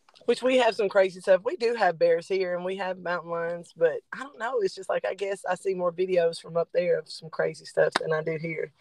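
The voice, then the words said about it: Alabama accent. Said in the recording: “I'm trying to place the accent... I'm in Alabama”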